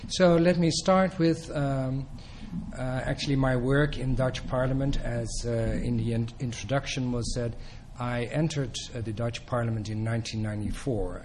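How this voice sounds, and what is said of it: Dutch accent. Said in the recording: “my accent. I'm from the Netherlands. I have a Dutch accent, ... it sounds like Dutch as well”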